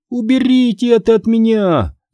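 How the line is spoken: Scream. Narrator (Russian): закричала она

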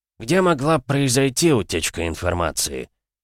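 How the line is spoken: Heavy sigh. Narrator (Russian): тяжело вздохнул

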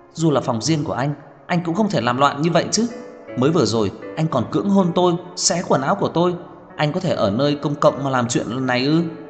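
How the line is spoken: Frightened, angry shouting. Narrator (Vietnamese): Cô vẫn rất sợ hãi, tức giận kêu to

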